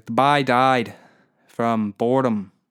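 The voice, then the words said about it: Attempted Newfoundland accent. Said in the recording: “I can't do a fucking Newfie accent”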